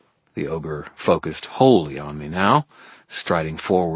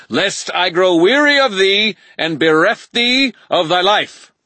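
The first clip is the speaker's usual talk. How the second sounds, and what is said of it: Overdramatic archaic character voice. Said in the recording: “in that same overdramatic voice”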